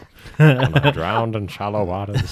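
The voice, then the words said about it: Bad impression, old-timey announcer voice. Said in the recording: “doing your Morgan Freeman voice ... That is like the worst Morgan Freeman voice ... I think that's an old-timey announcer”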